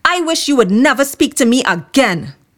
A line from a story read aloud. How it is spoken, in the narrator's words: He shouted